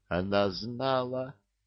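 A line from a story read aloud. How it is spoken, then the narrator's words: Stunned whisper. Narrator (Russian): прошептал пораженный Кощей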